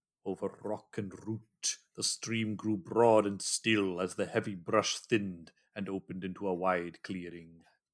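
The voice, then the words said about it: Good put-on storyteller accent. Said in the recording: “You can just imagine Ian McKellen saying this, or John Rhys-Davies ... That's a good accent.”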